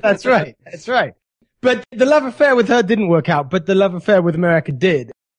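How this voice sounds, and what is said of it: British accent. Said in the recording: “some people might be able to tell from your accent that you're originally from Great Britain”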